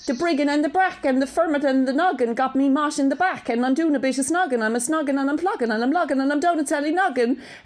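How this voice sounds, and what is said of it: Put-on Cork accent, rapping. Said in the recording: “do it in my Cork accent”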